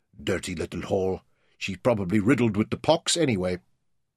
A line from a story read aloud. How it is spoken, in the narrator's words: muttering to himself